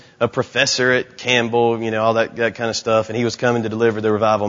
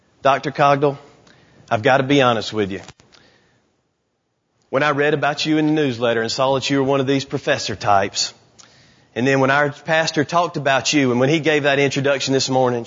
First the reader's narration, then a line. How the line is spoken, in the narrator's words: she said